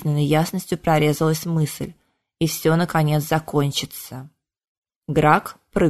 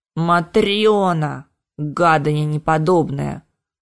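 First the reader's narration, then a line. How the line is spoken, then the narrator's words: Distant howl. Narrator (Russian): взвыл где-то далеко голос рыжего мутанта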